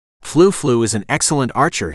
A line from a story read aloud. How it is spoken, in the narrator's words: he said diplomatically